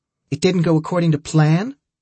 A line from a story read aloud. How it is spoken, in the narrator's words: Julie snapped at Milo